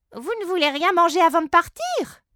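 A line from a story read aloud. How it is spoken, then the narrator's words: Chief exclaiming. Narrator (French): s'exclame grand chef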